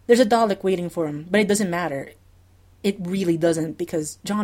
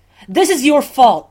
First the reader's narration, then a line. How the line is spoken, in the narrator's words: Sherlock snaps, and now his voice is too loud, sticks like cut in everyone's ears